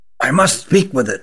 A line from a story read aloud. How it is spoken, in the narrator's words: whispered Rugum